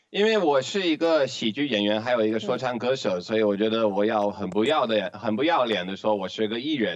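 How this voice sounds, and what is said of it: Foreigner speaking with mainland Chinese accent. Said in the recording (Chinese): “一听你讲话就会觉得你是中国口音的这一个老外”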